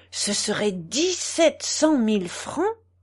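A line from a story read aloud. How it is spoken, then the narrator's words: Astonished exclamation. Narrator (French): s'écria Fraisier stupéfait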